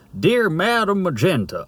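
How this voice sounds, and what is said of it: Put-on Deep South accent, Foghorn Leghorn-like. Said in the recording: “That sounds a bit more deep south. ... That was a bit too Foghorn Leghorn.”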